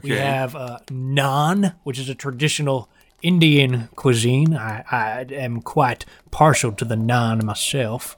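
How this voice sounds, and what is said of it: Salesman character with put-on dialect. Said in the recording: “my dialect”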